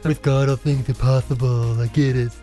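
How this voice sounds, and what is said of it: Impression of eye-rolling listeners. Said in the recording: “That was an excellent impression of all of our listeners”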